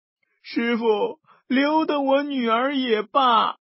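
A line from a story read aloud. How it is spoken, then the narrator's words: Old man crying. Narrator (Chinese): 太公哭道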